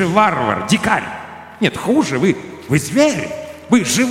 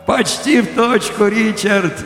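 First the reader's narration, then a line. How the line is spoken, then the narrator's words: Laughing cheerfully. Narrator (Russian): весело засмеялся я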